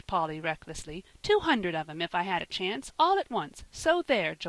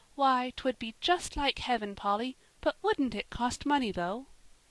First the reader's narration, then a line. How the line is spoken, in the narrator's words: said little Davy, drawing a long sigh